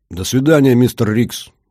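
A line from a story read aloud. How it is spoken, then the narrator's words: Shouted after someone. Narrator (Russian): крикнул я вслед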